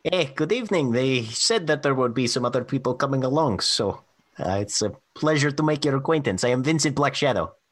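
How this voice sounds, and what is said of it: Vague Russian Slavic accent. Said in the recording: “it's vaguely Russian Slavic... vaguely Slavic... It reads as as European immigrant... It doesn't read as anything like, oh, you're specifically from Moldova.”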